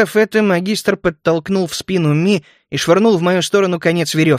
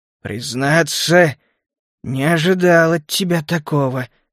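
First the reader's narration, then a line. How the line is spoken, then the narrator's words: Through gritted teeth. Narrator (Russian): сквозь зубы произнес он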